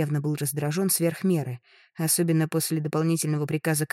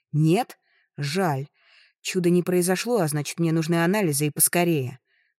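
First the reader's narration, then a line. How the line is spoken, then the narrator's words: Irritated growl. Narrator (Russian): рыкнула раздраженно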